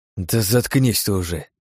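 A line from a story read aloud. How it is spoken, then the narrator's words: Grumble. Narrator (Russian): проворчал я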